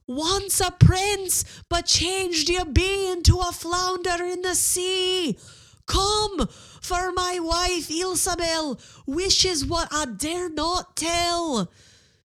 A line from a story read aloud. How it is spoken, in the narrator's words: So he shouted, not able to hear his own voice